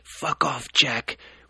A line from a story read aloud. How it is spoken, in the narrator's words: wheezed Toby